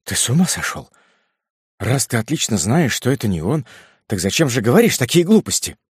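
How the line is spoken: Confused mother muttering. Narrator (Russian): Мать растерянно пробормотала

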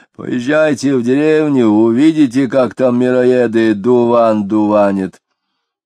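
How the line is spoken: Powerful dry bass voice. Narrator (Russian): Хотяинцев предлагал могучим, но неприятно сухим басом

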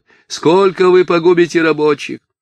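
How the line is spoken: Shouting over crowd. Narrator (Russian): он кричал через голову

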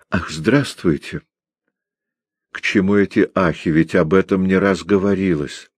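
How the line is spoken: Calm address. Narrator (Russian): Горн спокойно обратился к Кречмару

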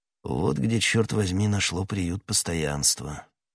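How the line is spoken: Muttering. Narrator (Russian): пробормотал Атос

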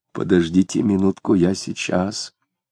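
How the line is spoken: Quiet. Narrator (Russian): тихо сказал Захарий

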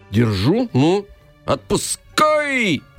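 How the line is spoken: Yelling. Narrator (Russian): заорал Иван

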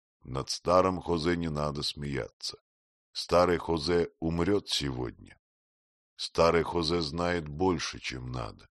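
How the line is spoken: Stern old man. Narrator (Russian): старик сказал строго

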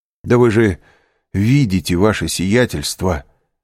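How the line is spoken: Exclamation. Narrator (Russian): воскликнул управляющий

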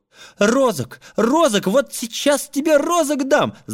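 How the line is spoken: Mother shouting. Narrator (Russian): закричала мать на Машу

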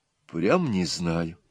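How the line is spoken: Quiet and sad. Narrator (Russian): тихо и грустно опять сказала Нюра

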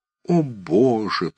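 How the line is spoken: Groaned. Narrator (Russian): простонал Шубин

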